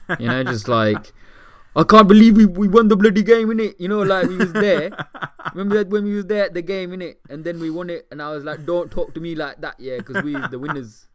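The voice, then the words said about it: Put-on Northern British Asian accent. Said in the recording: “Northern Asians ... I love that accent. It's just the best ... Amir Khan English ... It's a glorious accent. It sounds fantastic.”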